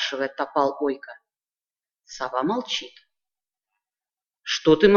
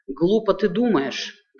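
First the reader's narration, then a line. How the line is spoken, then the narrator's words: Plain. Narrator (Russian): говорит Ойка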